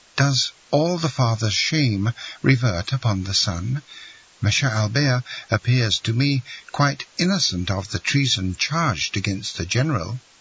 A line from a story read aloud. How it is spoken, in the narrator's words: said Valentine timidly